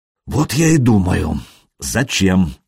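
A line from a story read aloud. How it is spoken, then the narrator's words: Sighing. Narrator (Russian): вздохнул Рерих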